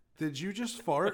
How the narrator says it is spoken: said no and laughed

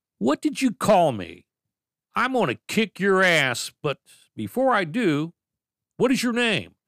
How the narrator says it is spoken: He yelled again at me

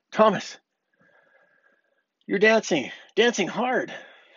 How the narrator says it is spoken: Junior yelled

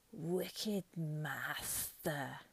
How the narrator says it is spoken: it hissed

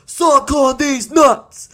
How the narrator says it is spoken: The Rock yells

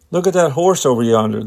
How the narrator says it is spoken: the suspected man exclaimed

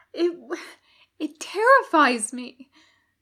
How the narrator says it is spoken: he gasps

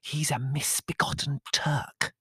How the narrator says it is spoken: hissed suddenly in Greek

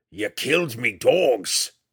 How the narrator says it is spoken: the huge mountain man roared

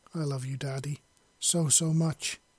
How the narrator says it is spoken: cried

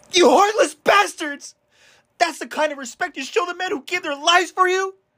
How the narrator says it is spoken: scream out

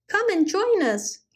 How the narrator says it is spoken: he cried to a group of rabbits

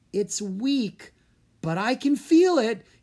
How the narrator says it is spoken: he said, his voice rising with excitement

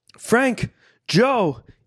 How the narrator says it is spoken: yelled from the rear of the store

